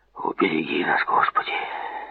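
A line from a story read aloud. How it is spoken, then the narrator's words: Whispered. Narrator (Russian): шепотом произнес он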